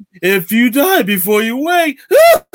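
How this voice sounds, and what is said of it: Impression of a creepy clown voice. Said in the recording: “That's a good impression too.”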